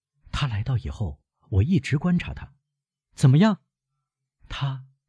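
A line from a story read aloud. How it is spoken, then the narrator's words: Quiet. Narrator (Chinese): 梅赛德斯小声说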